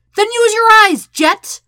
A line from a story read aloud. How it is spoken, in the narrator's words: Sokka nearly yells